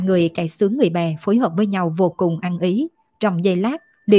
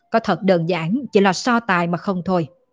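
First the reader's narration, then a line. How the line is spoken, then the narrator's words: Cold scoff. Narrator (Vietnamese): Tào Chính Văn vẫn lạnh lùng hừ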